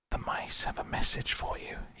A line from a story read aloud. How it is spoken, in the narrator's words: he whispered